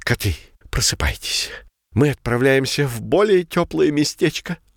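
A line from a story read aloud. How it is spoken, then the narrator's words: Hoarse, sick voice. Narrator (Russian): Простывшим голосом захрипел лидер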